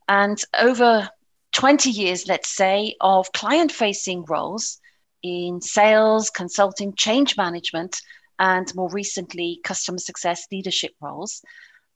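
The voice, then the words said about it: British English accent. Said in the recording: “my British accent. ... I am English originally”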